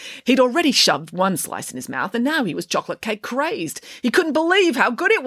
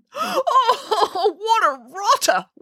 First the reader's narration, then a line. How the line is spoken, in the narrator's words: wailed Boris